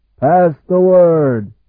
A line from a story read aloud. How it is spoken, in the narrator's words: he bellowed